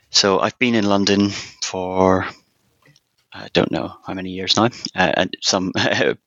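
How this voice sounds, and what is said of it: Northern Irish accent. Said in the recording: “you can probably tell from my accent, I'm not born and bred in London. I was actually born in Northern Ireland”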